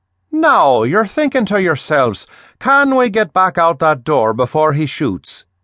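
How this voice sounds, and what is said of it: Irish accent, character voice. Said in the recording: “he said with a healthy touch of Irish accent.”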